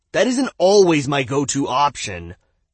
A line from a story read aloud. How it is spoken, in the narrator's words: Joe replied indignantly